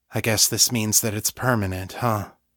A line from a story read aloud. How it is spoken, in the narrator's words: Sasha said, her voice coming out flat and lifeless